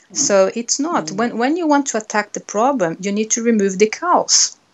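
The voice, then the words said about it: Brazilian-accented English. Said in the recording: “Your accent sounds like remove the cows ... I'm a Brazilian ... my accent will not change”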